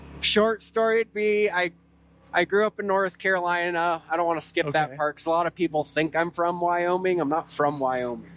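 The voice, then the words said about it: Slight blended Southern US accent. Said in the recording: “I can hear it a little in your voice. It's not a Wyoming accent. ... It's a good blend.”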